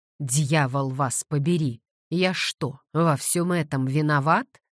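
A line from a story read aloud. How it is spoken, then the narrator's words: Growled. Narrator (Russian): зарычал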